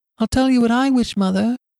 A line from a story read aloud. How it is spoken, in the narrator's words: cried he